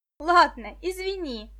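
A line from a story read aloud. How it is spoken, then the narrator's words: Laughing. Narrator (Russian): засмеялась Виктоша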